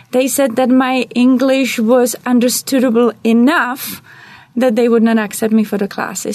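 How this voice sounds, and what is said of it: Czech-accented English. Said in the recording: “I'm originally from Czech Republic ... I was told that I cannot lose my accent ... you will hear my accent every time we talk”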